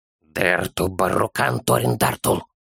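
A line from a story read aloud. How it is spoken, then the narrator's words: Sudden ominous child's whisper. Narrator (Russian): Вдруг зловещим шепотом произнес малыш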